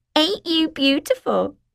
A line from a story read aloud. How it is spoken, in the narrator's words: giggled